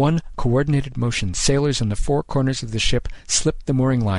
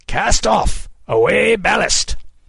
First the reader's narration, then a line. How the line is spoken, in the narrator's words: He bellowed